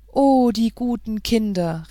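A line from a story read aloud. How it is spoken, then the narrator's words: Moved exclamation. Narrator (German): rief Märchen bewegt aus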